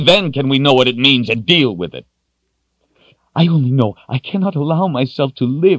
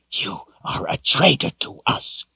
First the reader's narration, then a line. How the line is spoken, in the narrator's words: he whispered viciously